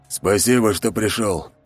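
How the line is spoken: Breathy, relieved exhale. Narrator (Russian): наконец-то выдохнул трактирщик

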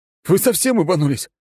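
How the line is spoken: Yelling. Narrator (Russian): заорал я на ржущих товарищей

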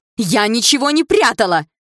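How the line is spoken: Nervous outburst. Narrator (Russian): выкрикнула старшая придворная дама, начав нервничать

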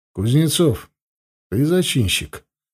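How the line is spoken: Even, calm question. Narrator (Russian): спросил он ровным, спокойным голосом

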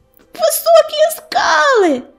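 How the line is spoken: Shouted. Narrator (Russian): закричала она

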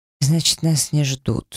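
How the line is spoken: Thoughtful mutter. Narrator (Russian): задумчиво пробормотал он

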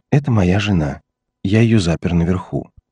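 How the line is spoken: Calm explanation. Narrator (Russian): спокойно пояснил Уилсон

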